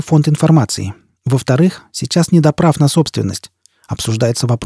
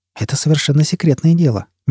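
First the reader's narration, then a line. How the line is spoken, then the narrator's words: Gentle. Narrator (Russian): мягко заметил Ян Кьёвилл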